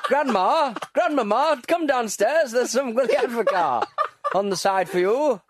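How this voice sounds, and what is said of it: Sunderland accent impression. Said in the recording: “That's a great impression of people from Sunderland there.”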